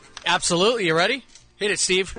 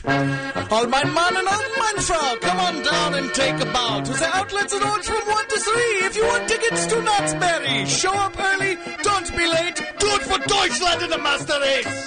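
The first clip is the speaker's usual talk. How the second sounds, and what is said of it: Put-on German accent. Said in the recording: “Was that an attempt at a German accent? ... Wow, that was frightening.”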